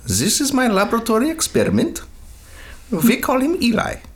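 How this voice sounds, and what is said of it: Put-on German accent. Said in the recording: “She used to do it with a German accent, though.”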